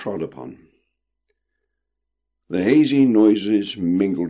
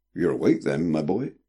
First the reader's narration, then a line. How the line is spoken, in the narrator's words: said Mr